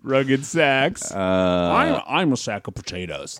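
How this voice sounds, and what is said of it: Imitates another person's voice. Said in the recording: “That's my Sandra Bernhardt impersonation. ... That's not bad.”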